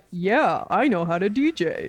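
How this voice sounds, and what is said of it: Imitates another person's voice. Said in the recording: “That's not how I sound. ... Great Eric impression.”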